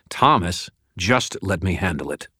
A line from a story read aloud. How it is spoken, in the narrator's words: said, his voice hard